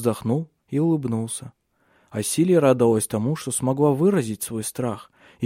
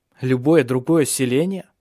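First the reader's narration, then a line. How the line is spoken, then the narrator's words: Snorting. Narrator (Russian): фыркнул Хеминг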